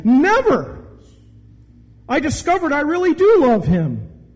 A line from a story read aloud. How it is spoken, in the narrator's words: she exclaimed